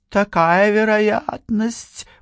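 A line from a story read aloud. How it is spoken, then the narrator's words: Drawling. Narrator (Russian): протянула она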